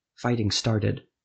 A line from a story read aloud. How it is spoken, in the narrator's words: Adro whispered